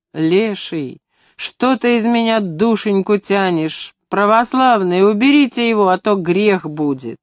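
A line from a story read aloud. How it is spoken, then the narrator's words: Wailing. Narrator (Russian): купец ... взвыл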